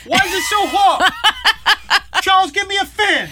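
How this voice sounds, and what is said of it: Imitates another person's voice. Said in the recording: “That's my impression of the Queen.”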